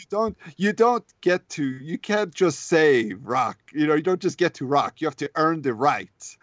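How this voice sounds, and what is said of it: Put-on character accent. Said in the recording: “you're getting the accent so well.”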